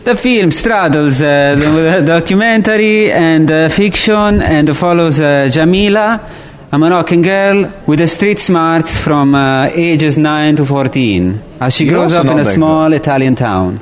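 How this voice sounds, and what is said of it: Mediocre put-on Italian accent. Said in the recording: “how to do Italian accent ... You're not that good either ... I'm not trying to do Super Mario”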